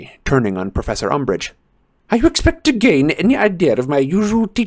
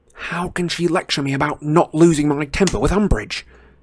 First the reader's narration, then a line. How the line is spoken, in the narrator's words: Harry muttered to Ron under his breath, but he was grinning